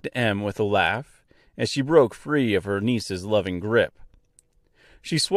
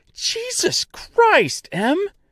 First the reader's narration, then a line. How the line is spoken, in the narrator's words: screamed Dorothy as Henry began to convulse